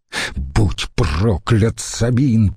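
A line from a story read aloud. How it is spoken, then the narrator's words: Hissed. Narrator (Russian): прошипел Котта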